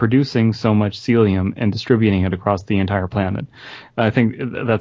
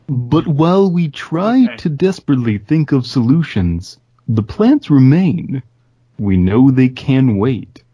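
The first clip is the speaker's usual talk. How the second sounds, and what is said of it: Attempted Carl Sagan impression. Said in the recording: “I can't do an impression of him. ... Carl Sagan is reading this last paragraph. ... I'm going to fail. But should I give an attempt?”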